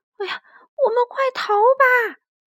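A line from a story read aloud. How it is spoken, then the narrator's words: Crying out. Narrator (Chinese): 路易哭喊着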